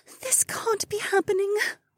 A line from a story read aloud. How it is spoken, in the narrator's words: Becca whispered, and her brown eyes filled up with tears